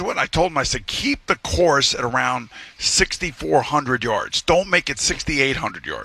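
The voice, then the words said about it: Yelling, raised angry voice. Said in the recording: “you're yelling”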